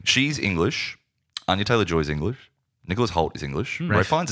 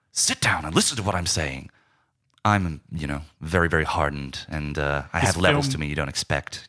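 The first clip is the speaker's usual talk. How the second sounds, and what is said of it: Put-on American accent. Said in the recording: “just like that American accent that we've talked about before ... You're just doing an accent.”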